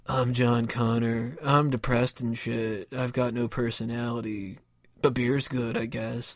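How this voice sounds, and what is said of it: Flat monotone character voice. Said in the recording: “monotone voiceover”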